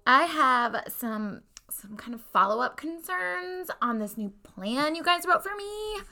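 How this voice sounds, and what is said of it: Alexis from Schitt's Creek impression. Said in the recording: “she talks like Alexis from Schitt's Creek ... my Alexis impression”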